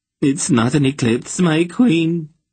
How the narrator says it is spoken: the bald functionary wailed, groveling

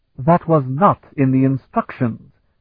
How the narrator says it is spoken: Perak snapped

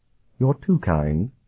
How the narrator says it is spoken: Sophrenia murmured

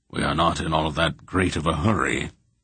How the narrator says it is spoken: Belgarath remarked blandly

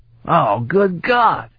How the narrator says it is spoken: Stragan exclaimed

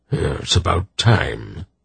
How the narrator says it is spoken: Belgarath grunted

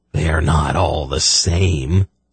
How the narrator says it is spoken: Senji murmured

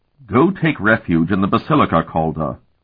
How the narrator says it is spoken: Dolmant told him coldly

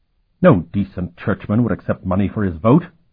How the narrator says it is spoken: Bavier said, his voice verging on outrage

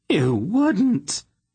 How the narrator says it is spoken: Queen Layla gasped, shocked out of her hysteria

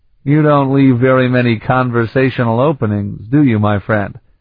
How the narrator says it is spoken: Sparhawk chuckled

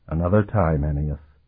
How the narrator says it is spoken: he whispered under his breath

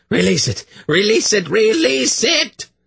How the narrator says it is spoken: His voice rose to a shriek

